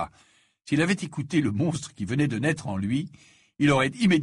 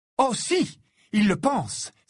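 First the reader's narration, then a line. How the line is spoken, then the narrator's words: Angry exclamation. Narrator (French): s'exclama Ginny en s'emportant cette fois contre Harry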